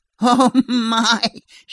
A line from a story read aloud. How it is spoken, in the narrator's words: she finally chuckled, sniffing loudly